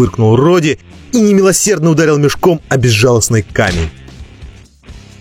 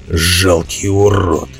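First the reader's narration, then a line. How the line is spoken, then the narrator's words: Muttered insult. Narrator (Russian): пробормотал Роди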